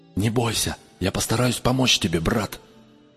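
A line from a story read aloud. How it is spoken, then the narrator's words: Quick whisper. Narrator (Russian): быстро шепнула она ему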